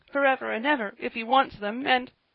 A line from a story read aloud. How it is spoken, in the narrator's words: said Joel, whimpering